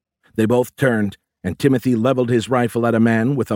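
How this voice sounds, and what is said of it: Usual voice. Nothing is said of it.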